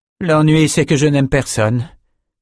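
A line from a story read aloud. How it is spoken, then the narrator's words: Cold. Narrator (French): lâcha froidement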